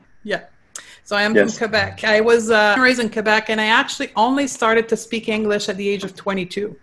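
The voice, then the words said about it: Slight Quebec French accent. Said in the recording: “I'm French from Quebec ... this accent that will never go away, but it's my trademark ... Just a little bit.”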